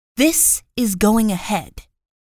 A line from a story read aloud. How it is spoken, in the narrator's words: snarled with the curl of her lips